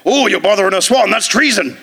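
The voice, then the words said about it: Put-on West Country accent. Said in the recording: “your West Country accent very offensive”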